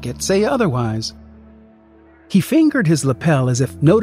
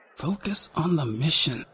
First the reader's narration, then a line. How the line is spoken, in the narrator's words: I muttered